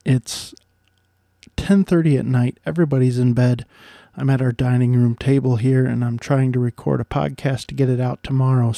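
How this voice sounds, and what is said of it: Soft whispered speech. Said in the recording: “I'm sorry that I'm actually kind of whispering here a little bit ... I'm whispering a little bit”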